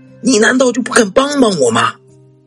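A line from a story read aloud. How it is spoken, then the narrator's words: Timid asking. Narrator (Chinese): 他女人畏畏缩缩的，问他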